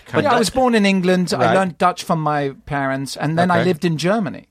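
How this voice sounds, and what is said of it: British-sounding accent. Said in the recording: “You have a British accent”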